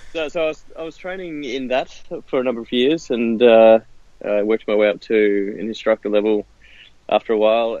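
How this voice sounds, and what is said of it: Australian accent. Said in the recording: “I've got the outrageous Australian accent”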